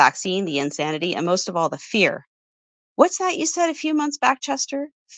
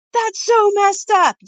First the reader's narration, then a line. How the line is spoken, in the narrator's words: yelled Misty